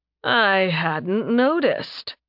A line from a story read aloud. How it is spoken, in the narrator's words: he drawled